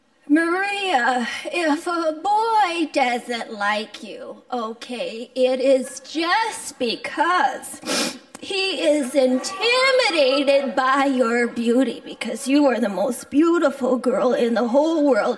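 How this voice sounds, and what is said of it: Imitates mother's voice. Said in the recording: “I like to do a lot of voices ... doing impersonations of me”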